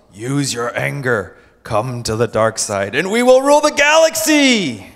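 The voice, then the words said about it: Villainous Star Wars Emperor voice. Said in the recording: “the Emperor in Star Wars ... That's a good impression”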